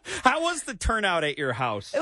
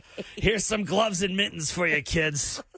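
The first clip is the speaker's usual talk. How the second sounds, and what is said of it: Imitates another person's voice. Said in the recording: “Is that how I sound? ... I don't know why that's my impression of you.”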